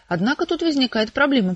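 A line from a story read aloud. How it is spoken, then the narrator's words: Mutter. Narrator (Russian): пробормотал Виктор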